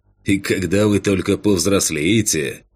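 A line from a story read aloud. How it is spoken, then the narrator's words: Scoffing hmph. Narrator (Russian): хмыкнул Кэн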